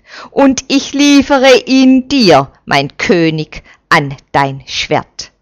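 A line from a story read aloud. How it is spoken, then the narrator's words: Angry captain calling out. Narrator (German): ruft der erzürnte Hauptmann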